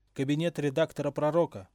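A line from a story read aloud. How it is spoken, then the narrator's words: Shouted out. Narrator (Russian): выкрикнул Билл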